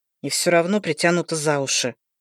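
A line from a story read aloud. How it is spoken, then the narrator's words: Grumbling. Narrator (Russian): проворчал друг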